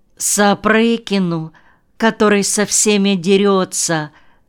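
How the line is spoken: Sighing. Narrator (Russian): вздохнула Анютка

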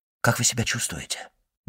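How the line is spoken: Quick whispered question. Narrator (Russian): быстро спросил он шепотом

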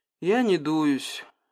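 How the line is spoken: Sighing. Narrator (Russian): вздохнул Капестеренский

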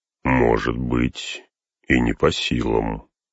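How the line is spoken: Quiet. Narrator (Russian): тихо проговорил Гэндальф

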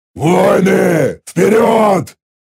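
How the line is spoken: Growl. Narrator (Russian): рыкнул я

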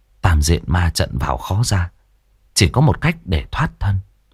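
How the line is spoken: Thoughtful mutter. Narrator (Vietnamese): Lãnh suy nghĩ một hồi, đoạn lẩm bẩm

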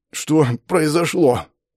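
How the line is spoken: Hoarse, out of breath. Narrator (Russian): прохрипел я, кое-как приведя дыхание в порядок

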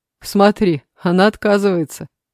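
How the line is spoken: Laughing. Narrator (Russian): засмеялся Егор

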